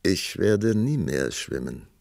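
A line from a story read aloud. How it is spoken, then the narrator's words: Calm answer. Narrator (German): antwortete der Prinz ruhig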